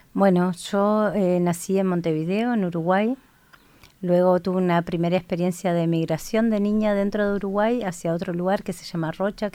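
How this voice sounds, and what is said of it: Uruguayan Spanish accent. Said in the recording (Spanish): “Por el acento la gente tiene que haber percibido”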